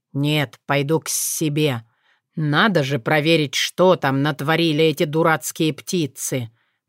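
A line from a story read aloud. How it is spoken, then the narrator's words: Grumbling. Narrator (Russian): проворчал Сшайр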